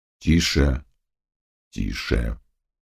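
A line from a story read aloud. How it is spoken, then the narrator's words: Quiet but emphatic. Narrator (Russian): сказал князь негромко, но с ударением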